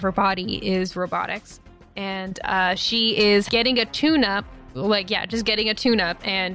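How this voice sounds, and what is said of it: Usual voice. Nothing is said of it.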